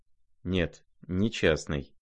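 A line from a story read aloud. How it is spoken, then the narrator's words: Quiet but firm. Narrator (Russian): тихо, но твердо проговорил князь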